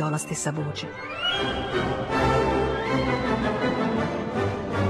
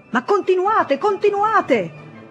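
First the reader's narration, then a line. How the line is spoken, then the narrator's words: Shouting again. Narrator (Italian): gridò ancora quella voce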